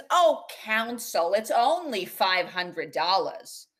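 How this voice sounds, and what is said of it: Imitated Bronx accent. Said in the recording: “In this accent? ... Yeah, it's the Bronx.”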